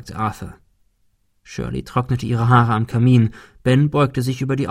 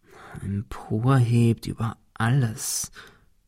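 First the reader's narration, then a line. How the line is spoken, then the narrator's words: Muttering. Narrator (German): murmelte Ben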